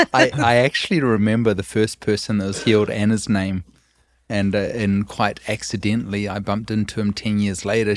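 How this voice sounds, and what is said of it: Speaks with a noticeable accent. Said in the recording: “Did you get that accent? That sounds great, doesn't it? ... it's great for a podcast ... I can't even mimic it”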